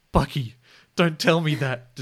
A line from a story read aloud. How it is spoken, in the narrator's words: Detective Harlan Sanders pleaded